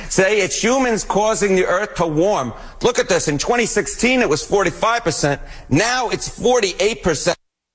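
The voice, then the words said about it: Exaggerated New York accent. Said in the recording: “This is an all New York accent hit ... You're leaning into that ... Now I really am leaning into the, yes, New York accent.”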